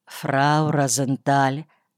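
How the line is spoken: Quiet male voice. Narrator (Russian): сказал он тихо

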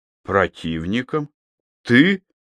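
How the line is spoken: Surprised exclamation. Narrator (Russian): удивленно воскликнул Найденов

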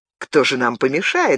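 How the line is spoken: Cheerful question. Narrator (Russian): весело спросил он

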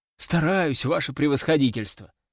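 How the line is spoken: Muttered. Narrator (Russian): пробормотал я

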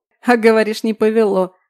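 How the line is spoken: Mocking laughter. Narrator (Russian): хохотал надо мной Антон

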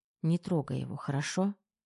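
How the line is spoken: Soft whisper. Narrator (Russian): тихонько шепнула Тома

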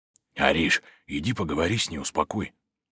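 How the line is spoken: Whispering. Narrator (Russian): Дима зашептал

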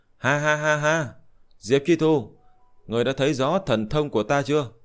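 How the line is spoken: Loud laughing. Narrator (Vietnamese): Chuẩn Đề đạo nhân cười lớn

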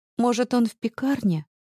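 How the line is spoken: Timid question. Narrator (Russian): робко спрашивает Лиза

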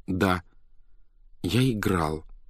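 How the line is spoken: Hoarse, timid. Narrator (Russian): ответил он голосом несколько сиплым от мороза и от робости

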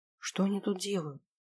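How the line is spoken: Quiet question. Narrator (Russian): спросила я тихо

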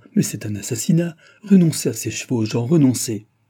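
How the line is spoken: Exclamation. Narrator (French): s'écria Jean

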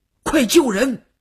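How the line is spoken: Loud shout. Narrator (Chinese): 吴长天大喊了一声

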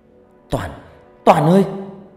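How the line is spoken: Panicked scream. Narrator (Vietnamese): Loan cứng đơ người, kêu lên thất thanh

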